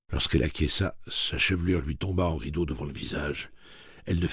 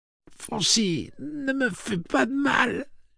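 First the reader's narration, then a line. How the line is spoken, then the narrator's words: Moaning. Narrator (French): gémit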